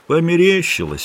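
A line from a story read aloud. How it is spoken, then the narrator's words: Sleepy reply. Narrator (Russian): ответил Педро сонно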